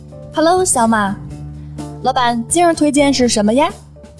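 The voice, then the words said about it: Put-on Shaanxi-like accent. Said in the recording (Chinese): “这怎么好像跟上一期又不是一个口音呢？听着是，这不变陕西人了？... 我听着有点跟那个陕西话差不多，就是佟掌柜那一路子”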